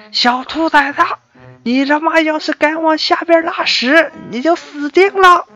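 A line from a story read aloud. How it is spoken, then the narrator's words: Man shouting from below. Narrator (Chinese): 下面修管道的大叔大喊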